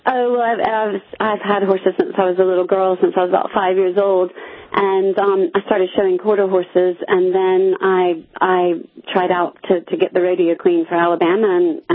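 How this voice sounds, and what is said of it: Mixed British and American accent. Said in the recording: “you are British. I'm going to guess, listening to your accent ... you picked up a bit of the accent then ... my accent's a bit confused, isn't it?”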